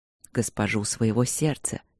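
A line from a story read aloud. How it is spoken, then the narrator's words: Very quiet. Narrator (Russian): сказал он очень тихо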